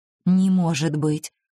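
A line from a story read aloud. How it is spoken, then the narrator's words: Bewildered mutter. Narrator (Russian): растерянно пробормотал он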